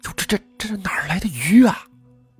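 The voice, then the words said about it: Quiet, hushed stammering voice. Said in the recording (Chinese): “小声地说”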